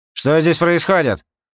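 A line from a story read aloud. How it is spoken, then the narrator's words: Angry question. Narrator (Russian): Сердито спросил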